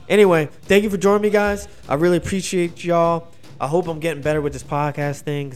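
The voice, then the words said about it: Tired, fatigued voice giving out. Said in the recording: “My voice is giving out. ... your voice gets fatigued, and you start getting tired”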